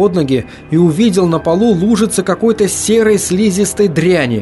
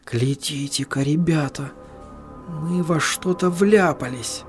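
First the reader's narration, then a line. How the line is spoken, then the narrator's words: Soft gasp, whisper. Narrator (Russian): тихонько ахнул и прошептал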